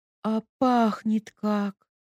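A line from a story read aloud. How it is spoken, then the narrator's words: Blissful exhale. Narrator (Russian): блаженно выдохнула Ника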